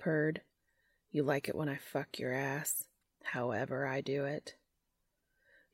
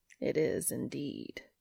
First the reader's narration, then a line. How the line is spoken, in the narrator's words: Cass purred